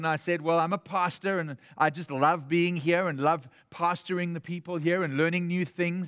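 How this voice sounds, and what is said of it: South African accent. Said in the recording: “he picked up, obviously, that I had an accent. ... I was from South Africa.”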